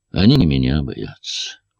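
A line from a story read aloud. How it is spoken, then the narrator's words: Tired. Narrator (Russian): устало сказала Диана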